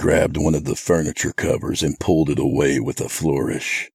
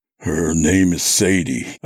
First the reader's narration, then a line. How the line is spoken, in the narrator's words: said thickly, my mouth feeling like it was stuffed with cotton